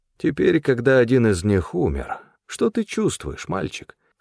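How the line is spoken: Insinuating question. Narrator (Russian): вкрадчиво поинтересовался Стефан

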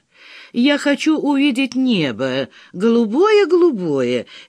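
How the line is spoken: Cheerful singing to a tune. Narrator (Russian): весело пропел тот на мотив популярной песни

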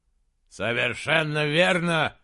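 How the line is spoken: Shouting out. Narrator (Russian): выкрикнул барон Ордмайер

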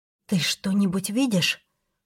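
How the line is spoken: Whispered. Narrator (Russian): прошептала

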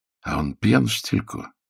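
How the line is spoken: Whisper. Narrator (Russian): прошептал Блюмкин

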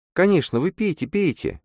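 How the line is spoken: Soft. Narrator (Russian): мягко сказала Массандра

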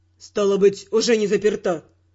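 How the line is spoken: Gloomy reply. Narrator (Russian): мрачно отозвался

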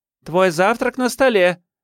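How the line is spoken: Shouted. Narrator (Russian): крикнула Джун

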